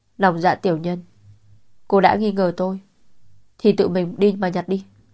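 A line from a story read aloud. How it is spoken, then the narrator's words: Cold, impatient. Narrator (Vietnamese): Hồ Dài Dài tỏ vẻ mất kiên nhẫn, lạnh lùng nói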